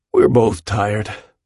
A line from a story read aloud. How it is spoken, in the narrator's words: Willem yawns